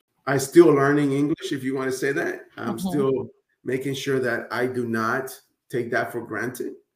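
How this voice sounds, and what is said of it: Non-native English accent. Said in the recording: “that word is going to come out with my accent ... I know that my accent is not going to come out as much”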